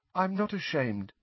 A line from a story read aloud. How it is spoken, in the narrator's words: said Neville, very faintly